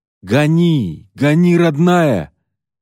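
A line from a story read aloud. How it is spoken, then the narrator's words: Shouting. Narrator (Russian): кричал Тихон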